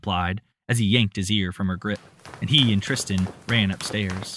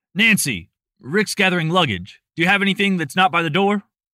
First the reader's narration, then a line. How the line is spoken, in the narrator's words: Andrew shouted across the hall